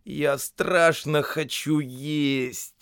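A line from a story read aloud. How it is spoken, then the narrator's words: Moaning. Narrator (Russian): простонал Бильбо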